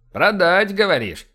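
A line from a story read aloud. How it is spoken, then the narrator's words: Skeptical snort, bearded man. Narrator (Russian): хмыкнул бородач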